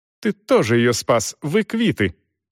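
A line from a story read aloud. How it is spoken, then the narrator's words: Snorting. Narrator (Russian): фыркнула Дорс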